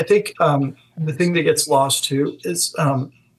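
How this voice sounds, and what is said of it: Usual voice. Nothing is said of it.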